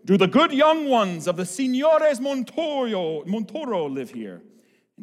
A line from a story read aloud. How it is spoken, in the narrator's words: Eduardo, whose voice was already so much deeper than many a man's, bellowed